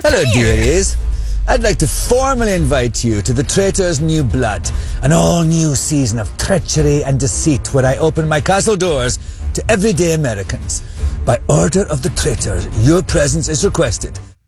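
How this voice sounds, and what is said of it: Man speaking with an accent. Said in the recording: “I like his accent.”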